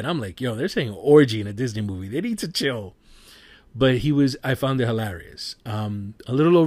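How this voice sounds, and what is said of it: Usual voice. Nothing is said of it.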